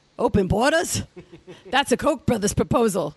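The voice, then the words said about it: Imitates another person's voice. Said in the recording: “doing the Bernie voice.”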